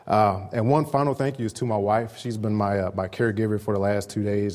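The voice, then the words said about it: Slightly raspy, sick-sounding voice. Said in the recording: “I've been under the weather for the past few days ... my voice starts to get a little raspy”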